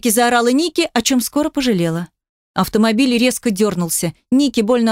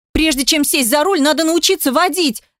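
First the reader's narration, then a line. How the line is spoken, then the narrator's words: Yelled reply. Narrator (Russian): заорала в ответ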